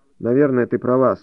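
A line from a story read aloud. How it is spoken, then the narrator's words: Dry, male. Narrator (Russian): сухо проговорил он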